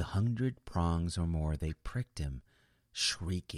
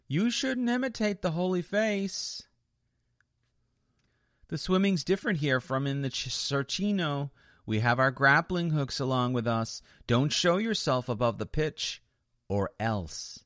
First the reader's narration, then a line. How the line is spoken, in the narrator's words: the devils underneath the bridge all shouted